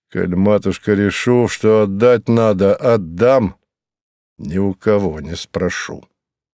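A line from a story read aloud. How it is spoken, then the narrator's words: Hollow muffled voice. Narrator (Russian): глухо сказал он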